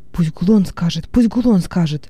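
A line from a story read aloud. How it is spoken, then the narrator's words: Several voices whispering. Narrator (Russian): зашептало несколько голосов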